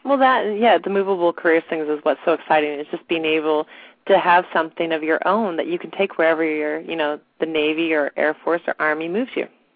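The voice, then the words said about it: Raspy voice from a cold. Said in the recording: “I have terrible allergies right now, a little bit of a cold, so my voice is getting raspy”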